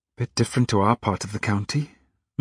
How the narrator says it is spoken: murmured Marie

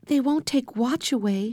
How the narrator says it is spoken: she whispered to Henry

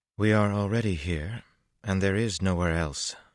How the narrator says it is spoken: Berlane replied in a very practical tone

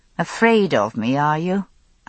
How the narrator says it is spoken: I said, with a humourless laugh

